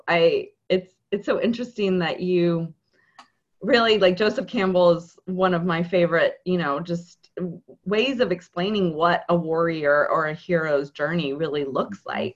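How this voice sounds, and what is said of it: Choked up, emotional voice. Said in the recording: “I get a little choked up when I could hear my voice just there”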